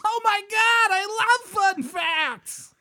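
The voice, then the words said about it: Goofy over-excited character voice. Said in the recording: “Why are you an idiot when you're excited? ... You sound like a character that was cut from Welcome Back, Kotter.”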